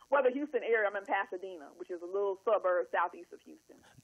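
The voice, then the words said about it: Southern twang. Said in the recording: “I heard that twang. ... My little twang.”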